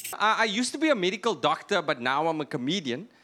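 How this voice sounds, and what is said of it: Thick, flat South African accent. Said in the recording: “very, very paranoid about how thick my accent is ... We speak flatter where I'm from. You know, we speak flatter in South Africa.”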